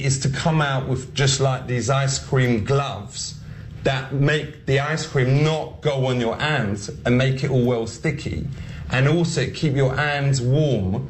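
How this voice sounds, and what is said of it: Ali G character accent. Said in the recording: “here's Ali G, here's Sacha Baron Cohen trying to just do this accent”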